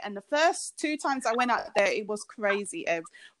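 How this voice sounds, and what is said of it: British accent. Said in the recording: “your accent just do something to me ... I don't hear my own accent ... I do sound different”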